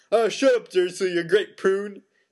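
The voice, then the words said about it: Giant character voice, inconsistent accent. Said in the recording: “That's not the same accent.”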